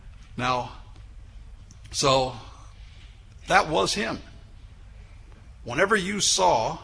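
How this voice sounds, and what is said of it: Usual voice. Nothing is said of it.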